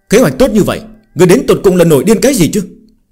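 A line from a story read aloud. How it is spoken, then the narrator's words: Angry scolding. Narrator (Vietnamese): giận dữ mắng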